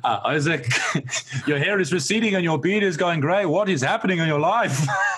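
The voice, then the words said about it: Weak imitated Lebanese accent. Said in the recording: “My Lebanese barber ... that's not a very good Lebanese accent”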